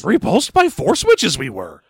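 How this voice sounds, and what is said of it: Yoda character voice impression. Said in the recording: “my best Yoda impression ... a real good one you got there ... better than when you were just doing it in your voice”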